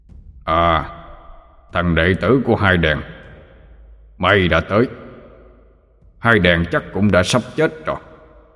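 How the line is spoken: Deep thunderous voice. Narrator (Vietnamese): Abraham giọng ông ta ồm ồm như sấm

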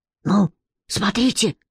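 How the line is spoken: Deep whisper. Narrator (Russian): басом прошептал Петька

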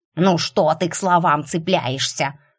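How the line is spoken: Squirrel's snort. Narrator (Russian): фыркнула белка

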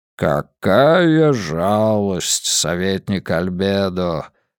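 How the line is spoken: Deep rumbling bass. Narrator (Russian): густым басом пророкотал кардинал

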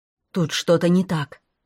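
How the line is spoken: Excited blurt. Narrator (Russian): взволнованно выпалил Саша

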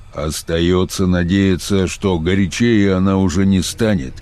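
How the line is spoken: Deep bass voice. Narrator (Russian): пробасил

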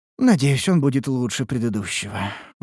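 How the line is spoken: Sighing student. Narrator (Russian): вздохнула ученица

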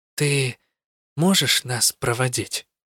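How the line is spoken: Quiet. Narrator (Russian): тихо добавила я

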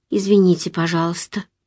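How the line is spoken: Mumbled. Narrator (Russian): пробормотала я

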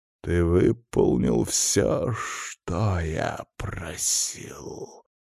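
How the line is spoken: Hissed. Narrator (Russian): прошипел Венедикт

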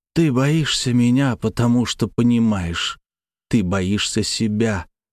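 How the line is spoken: Hiss. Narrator (Russian): прошипел двойник

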